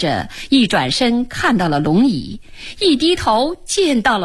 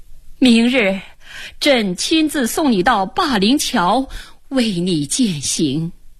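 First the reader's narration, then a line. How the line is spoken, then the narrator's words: Choked with tears. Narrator (Chinese): 元帝自己却哽咽了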